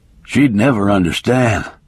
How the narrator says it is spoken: he muttered

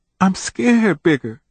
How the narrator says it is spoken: she whimpered

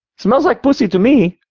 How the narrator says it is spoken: he chuckled

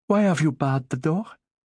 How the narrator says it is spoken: In a frightened voice, she said

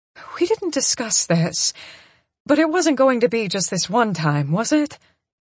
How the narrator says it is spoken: I laugh and ask

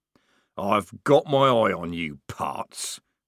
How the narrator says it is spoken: growled Strappy, temporarily defeated

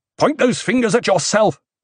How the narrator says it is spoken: Paul shouted

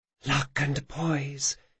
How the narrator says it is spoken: she whispered

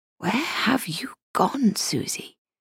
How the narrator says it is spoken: she whispered into the silence

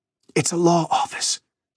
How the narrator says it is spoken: she whispered

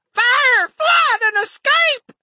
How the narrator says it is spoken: the other screamed

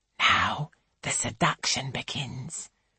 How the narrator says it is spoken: whispers Angelica

